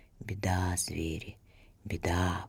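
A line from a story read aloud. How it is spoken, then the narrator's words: Snake's hiss. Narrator (Russian): прошипела змея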